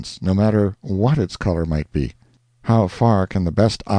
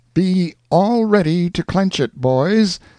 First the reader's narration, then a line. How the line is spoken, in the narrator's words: cried out Pathfinder